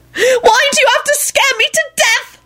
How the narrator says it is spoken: shrieked

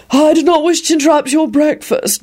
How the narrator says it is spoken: Barnabas blurted out quickly

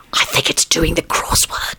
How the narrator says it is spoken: Lupin whispered

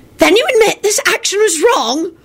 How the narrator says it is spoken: rang out the raspy voice of the senior undersecretary, an ancient tiny little witch

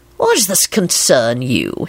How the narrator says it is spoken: He replied promptly

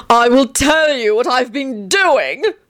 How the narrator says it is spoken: Antonin cried

